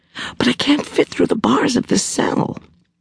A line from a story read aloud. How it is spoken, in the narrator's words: whispered